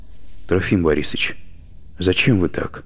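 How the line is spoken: Timid question. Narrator (Russian): робко спросила Алена

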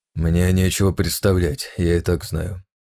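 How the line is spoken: Grumble. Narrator (Russian): буркнул Шайнари

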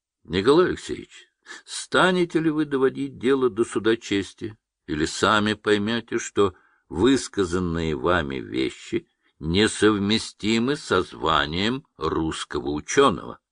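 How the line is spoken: Very calm. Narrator (Russian): Борисов очень спокойно говорит

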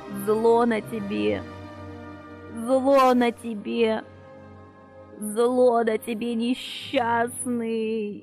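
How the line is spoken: Hoarse croaking moan. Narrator (Russian): Хрипло застонала она голосом, похожим на кваканье больной жабы

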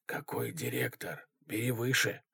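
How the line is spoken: Whisper. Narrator (Russian): шепнул Федя

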